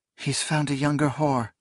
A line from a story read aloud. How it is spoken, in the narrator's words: something whispered